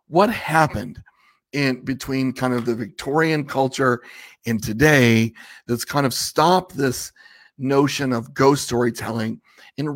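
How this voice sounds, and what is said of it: Raspy voice. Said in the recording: “my voice is a little raspy.”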